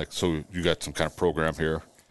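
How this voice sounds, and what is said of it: Put-on manly voice. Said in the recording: “do my best man voice”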